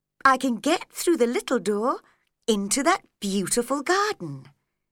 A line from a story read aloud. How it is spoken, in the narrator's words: said happily